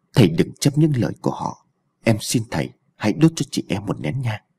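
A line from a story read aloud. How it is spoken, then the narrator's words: Soft pleading voice. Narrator (Vietnamese): Thủy nói khẽ với An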